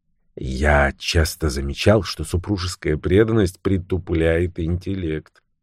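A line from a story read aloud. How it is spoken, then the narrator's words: Muttered. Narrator (Russian): пробормотал Томми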